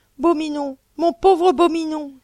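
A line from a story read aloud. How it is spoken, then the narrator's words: Exclaimed. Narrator (French): s'écria Sophie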